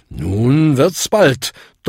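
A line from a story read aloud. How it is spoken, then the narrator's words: Thundering. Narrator (German): donnerte Bung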